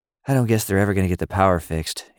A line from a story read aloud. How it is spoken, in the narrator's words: Emmy sighed